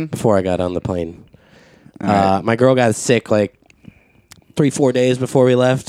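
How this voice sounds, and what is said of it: Congested voice with a cold. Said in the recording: “As you can hear, I have a bit of a cold.”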